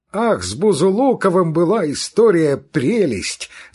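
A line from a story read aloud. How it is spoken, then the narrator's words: Shout. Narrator (Russian): закричал Петрицкий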